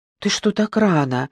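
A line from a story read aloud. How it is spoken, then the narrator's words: Frightened question. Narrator (Russian): спросила испуганно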